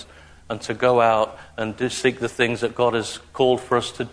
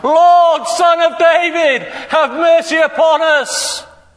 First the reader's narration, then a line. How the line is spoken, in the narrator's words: they shouted more loudly